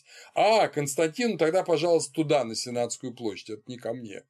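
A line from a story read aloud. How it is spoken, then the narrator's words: Calm, courageous reply. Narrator (Russian): спокойно и мужественно отвечает Николай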